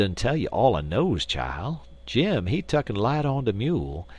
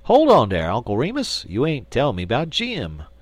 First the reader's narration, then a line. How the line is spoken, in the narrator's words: exclaimed the Jonesboro Negro